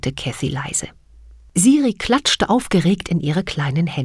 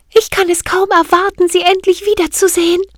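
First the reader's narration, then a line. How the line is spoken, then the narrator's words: Calling out. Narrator (German): rief sie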